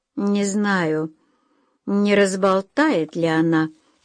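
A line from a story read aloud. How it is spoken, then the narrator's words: Drawling, thinking aloud. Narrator (Russian): протянула миссис Френч, словно рассуждая вслух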